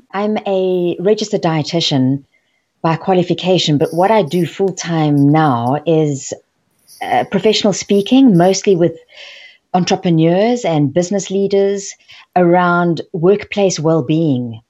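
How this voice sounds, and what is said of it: French South African accent. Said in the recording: “I'm a French South African living now in London. So that's where the accent is from.”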